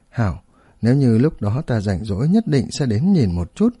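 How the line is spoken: Smiling. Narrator (Vietnamese): Áo Thác mỉm cười nói

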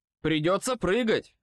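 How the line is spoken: Shout. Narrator (Russian): крикнул я

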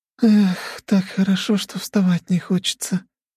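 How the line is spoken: Young woman moaning. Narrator (Russian): простонала девушка

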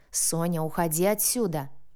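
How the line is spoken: Roaring. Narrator (Russian): проревел ее муж

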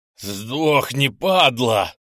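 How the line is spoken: Roaring. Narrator (Russian): взревел

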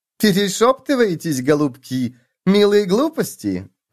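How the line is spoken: Dirty giggle. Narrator (Russian): грязно хихикнула Матильда

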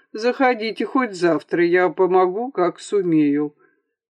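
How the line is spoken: Laughing. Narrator (Russian): засмеявшись, добавил

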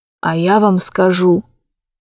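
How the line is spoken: Old man's loud whisper. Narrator (Russian): старик перешел на громкий шепот

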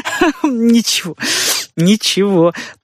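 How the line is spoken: Sobbing with laughter. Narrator (Russian): проговорил он, всхлипывая от смеха

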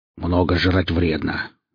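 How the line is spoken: Muttering. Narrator (Russian): буркнул Велес

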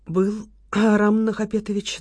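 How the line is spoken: Trembling voice. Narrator (Russian): дрожащим голосом подтвердила Яна

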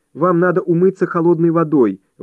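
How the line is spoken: Desperate exclamation. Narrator (Russian): в отчаянии воскликнула она

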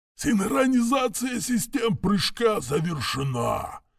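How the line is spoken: Hoarse rasp. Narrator (Russian): прохрипел штурман

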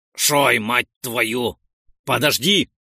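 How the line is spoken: Barking shout. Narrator (Russian): рявкнул я

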